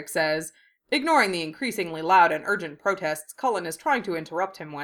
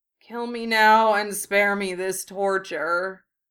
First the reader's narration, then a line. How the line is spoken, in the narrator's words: Cullen groans into his hands